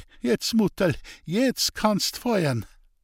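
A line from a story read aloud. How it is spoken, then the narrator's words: Laughing. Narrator (German): sagte er und fügte lachend bei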